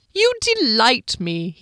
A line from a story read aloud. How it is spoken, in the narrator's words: cried